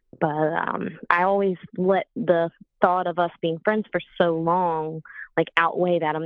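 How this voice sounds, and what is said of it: Southern American accent. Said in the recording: “You have the Southern accent.”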